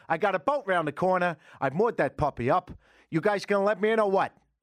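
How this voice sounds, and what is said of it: Put-on New York accent. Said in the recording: “I don't know why you need a New York accent, but it's the only one I can do.”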